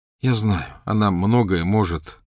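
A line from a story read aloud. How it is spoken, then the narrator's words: Tired. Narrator (Russian): устало сказал Гарри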